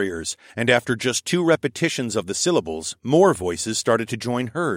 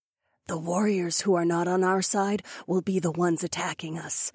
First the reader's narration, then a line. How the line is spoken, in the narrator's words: Fila whispered back